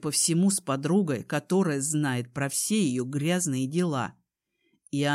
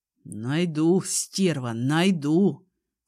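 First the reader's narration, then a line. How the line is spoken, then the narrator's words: Through clenched teeth. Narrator (Russian): Цежу сквозь зубы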